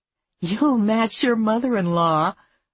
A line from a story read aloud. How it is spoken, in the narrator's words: Maddie said with a giggle